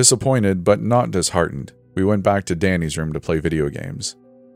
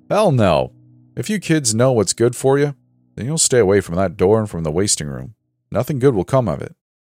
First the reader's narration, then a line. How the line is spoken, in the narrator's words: David replied